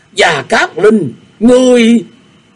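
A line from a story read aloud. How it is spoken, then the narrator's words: Shocked loud shout. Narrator (Vietnamese): Bành Liệt biến sắc, hét to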